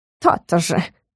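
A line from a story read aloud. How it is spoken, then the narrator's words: Smug snort. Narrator (Russian): хмыкнул Стикс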